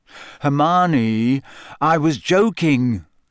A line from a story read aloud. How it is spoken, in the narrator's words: said Harry wearily